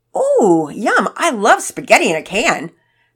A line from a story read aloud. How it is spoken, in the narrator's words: Pearson said loudly